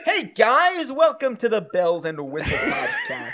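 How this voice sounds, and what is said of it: Imitates another person's voice. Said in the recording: “I can do an impression of you. ... That's John Mulaney. ... has a John Mulaney.”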